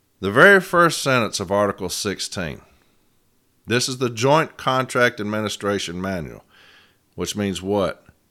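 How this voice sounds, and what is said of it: Voice affected by a cold. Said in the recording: “I'm getting a cold, that's why my voice sounds like this”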